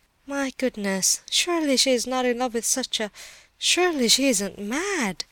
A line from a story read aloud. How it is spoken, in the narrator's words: groaned Mrs